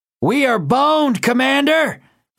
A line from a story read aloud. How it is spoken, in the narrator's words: called out